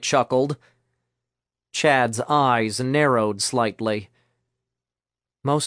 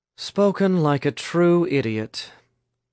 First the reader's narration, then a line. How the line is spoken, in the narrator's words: Chad sighed